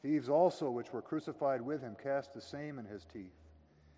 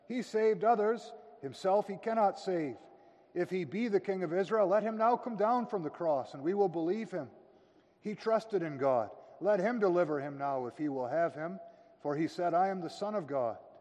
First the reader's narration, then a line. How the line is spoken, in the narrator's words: the chief priests, mocking him with the scribes and elders, said